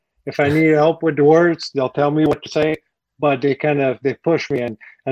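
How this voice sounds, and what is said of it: French accent. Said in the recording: “I can't get rid of my French accent. I don't know why it's still there after 27 years”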